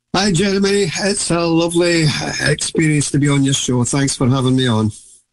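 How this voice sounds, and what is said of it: Scottish accent. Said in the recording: “my my Scottish accent.”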